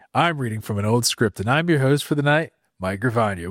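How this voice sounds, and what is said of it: Sexy late-night FM radio voice. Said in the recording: “sexy FM late night, hey, Dolores? Steve's out there and he's thinking about you”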